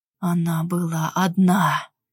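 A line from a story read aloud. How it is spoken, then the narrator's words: Hoarse rasp. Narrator (Russian): прохрипел Кристен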